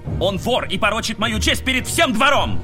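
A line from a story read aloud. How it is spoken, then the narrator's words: Barked. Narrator (Russian): гаркнул Кортлин Ксейдену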